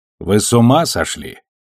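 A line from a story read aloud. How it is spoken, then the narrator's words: Stern question. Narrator (Russian): строго спросила она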